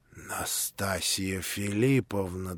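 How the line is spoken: Trembling voice. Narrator (Russian): дрожащим голосом проговорил Афанасий Иванович

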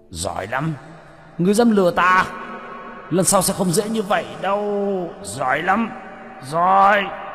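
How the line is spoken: Furious roar. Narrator (Vietnamese): Hải Xoa gầm lên tức tối

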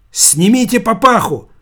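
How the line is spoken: Female doctor's shout. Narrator (Russian): крикнула врачиха

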